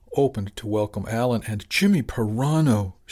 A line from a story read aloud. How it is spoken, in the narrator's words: blurted